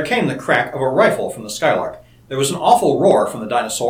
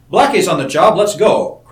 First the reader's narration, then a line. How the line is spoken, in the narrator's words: cried Seton